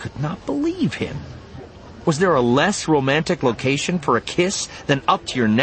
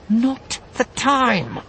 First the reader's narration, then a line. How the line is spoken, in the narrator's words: she said through clenched teeth